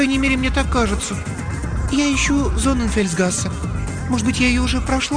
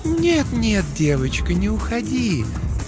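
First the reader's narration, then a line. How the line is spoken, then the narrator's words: Gentle she-wolf voice. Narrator (Russian): сказала волчица ласковым голосом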